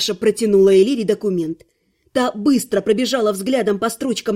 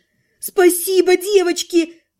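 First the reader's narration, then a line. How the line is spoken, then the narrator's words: Grateful squeak. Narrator (Russian): благодарно пискнула Элира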